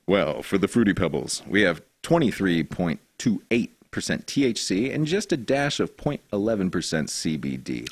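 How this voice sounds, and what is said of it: Polished radio announcer voice. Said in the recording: “with that radio voice ... I was just trying to speak with diction”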